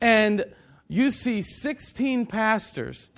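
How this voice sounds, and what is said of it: Usual voice. Nothing is said of it.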